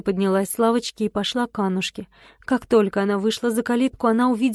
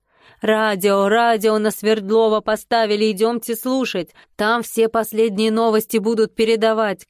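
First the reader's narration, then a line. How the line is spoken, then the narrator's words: Shout from crowd. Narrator (Russian): крикнул кто-то из толпы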